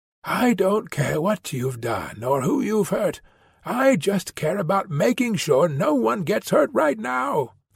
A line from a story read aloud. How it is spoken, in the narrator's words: whispered